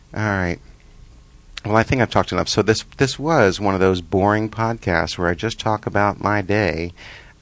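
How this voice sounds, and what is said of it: Tired, flat zombie-like voice. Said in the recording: “I'm so tired. I'm like talking like a zombie.”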